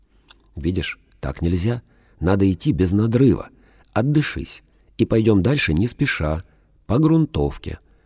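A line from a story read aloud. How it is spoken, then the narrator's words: Soft, gentle. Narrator (Russian): мягко отвечаю я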